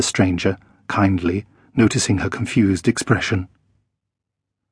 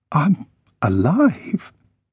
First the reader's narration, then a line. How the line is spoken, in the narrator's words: managed to croak